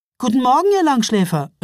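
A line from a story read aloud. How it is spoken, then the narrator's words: Cheerful call. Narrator (German): rief sie vergnügt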